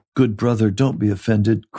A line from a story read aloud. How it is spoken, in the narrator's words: Christian said soothingly